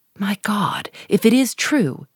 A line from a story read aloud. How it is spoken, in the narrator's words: he exclaimed